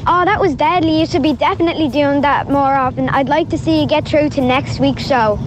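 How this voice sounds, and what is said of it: Child imitating a famous TV judge. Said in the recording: “your impersonation of somebody famous ... Simon Cowell ... Nicky Byrne”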